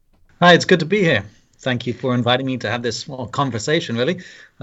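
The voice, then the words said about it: British accent. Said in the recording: “As you could probably pick up from my accent, I'm from the UK.”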